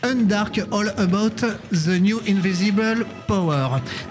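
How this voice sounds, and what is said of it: Poor English accent. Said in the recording (French): “mon accent anglais absolument déplorable”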